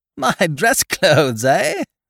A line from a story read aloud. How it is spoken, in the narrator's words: I laughed genially